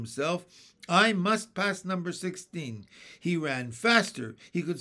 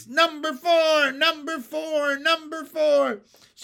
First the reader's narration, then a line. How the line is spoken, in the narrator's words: shouted the people